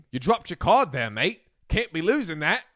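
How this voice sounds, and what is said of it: Bad put-on Australian accent. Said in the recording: “A terrible Australian accent.”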